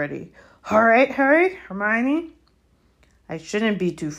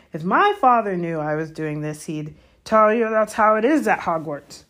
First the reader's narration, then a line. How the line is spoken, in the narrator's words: Hagrid growled